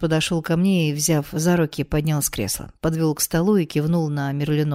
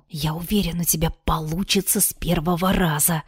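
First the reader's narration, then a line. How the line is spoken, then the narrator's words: Whisper in ear. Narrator (Russian): прошептал Дарт мне на ухо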